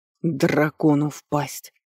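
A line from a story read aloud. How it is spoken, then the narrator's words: Hissing. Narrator (Russian): прошипел он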